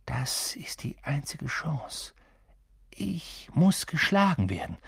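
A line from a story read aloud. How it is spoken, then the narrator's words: Quiet. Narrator (German): sagte Ron leise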